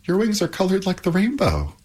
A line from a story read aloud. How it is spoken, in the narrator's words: exclaimed Pandora